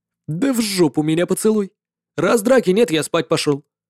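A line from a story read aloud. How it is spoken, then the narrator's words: Snorting creature. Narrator (Russian): фыркнуло существо по имени Черный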